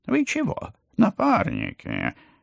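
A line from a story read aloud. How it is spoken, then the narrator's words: Squeaking. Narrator (Russian): пискнул тот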